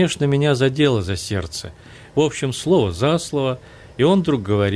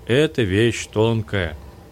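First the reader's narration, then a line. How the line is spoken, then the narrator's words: Meaningful drawn-out drawl. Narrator (Russian): этак многозначительно протянул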